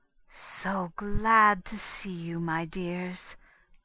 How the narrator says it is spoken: purred Madame

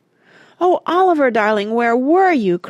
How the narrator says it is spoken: cried Mona's voice

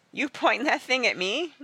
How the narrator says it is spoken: laughed

